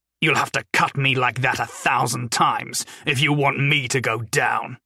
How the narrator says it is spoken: Lamprey sneered

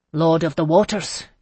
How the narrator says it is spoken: he said sharply

